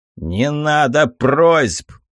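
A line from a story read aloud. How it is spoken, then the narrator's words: Barked. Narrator (Russian): рявкнул я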